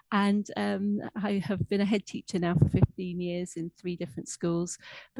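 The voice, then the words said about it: English accent. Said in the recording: “despite the English accent, I am English, but grew up in Scotland”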